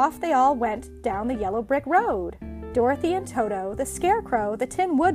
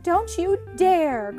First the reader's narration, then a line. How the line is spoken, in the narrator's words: cried Dorothy